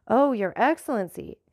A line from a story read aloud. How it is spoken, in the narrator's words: exclaimed Baptistin eagerly